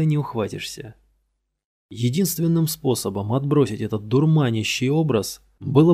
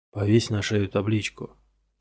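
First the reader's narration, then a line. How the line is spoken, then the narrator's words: Muttered under breath. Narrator (Russian): пробормотал я себе под нос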